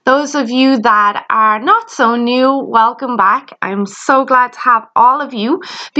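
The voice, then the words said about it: Irish accent. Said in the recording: “You may have noticed I have an accent. Yes, I am Irish.”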